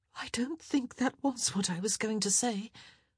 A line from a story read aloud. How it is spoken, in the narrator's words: She gasped, then groaned, then somehow managed to say